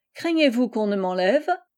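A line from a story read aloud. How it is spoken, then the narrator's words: Laughing. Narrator (French): fit Marie en riant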